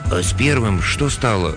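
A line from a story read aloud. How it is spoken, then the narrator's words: Timid peasant asking. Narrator (Russian): робко поинтересовался один из крестьян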